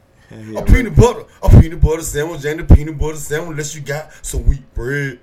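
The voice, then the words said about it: Imitates another person's voice. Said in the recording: “my impression of Tupac getting peanut butter jelly sandwich”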